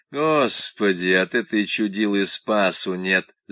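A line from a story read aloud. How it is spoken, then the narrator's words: Grumbling driver. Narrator (Russian): заворчал водитель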